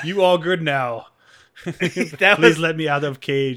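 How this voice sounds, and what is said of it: Imitated thick accent. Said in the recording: “He had a thick ass accent... It was thick.”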